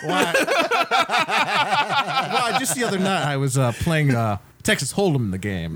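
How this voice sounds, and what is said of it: Put-on accent. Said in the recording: “Are you going with this accent the entire show?”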